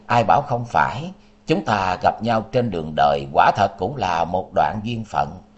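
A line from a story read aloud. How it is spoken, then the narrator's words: Soft sigh. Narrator (Vietnamese): Liễu Kiệt khẽ thở dài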